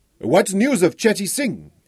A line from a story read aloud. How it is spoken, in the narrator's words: Ephrem Tahari shouted, his mouth close to Cheng's ear